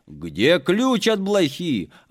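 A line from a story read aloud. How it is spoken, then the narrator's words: Shout. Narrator (Russian): закричал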